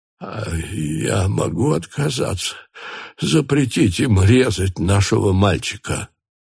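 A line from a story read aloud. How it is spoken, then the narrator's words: Sobbing mother. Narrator (Russian): Мать, не открывая глаз, содрогалась от рыданий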